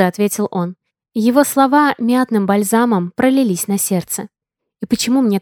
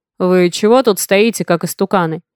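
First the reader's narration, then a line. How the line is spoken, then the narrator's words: Father's rough voice. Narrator (Russian): Голос отца грубо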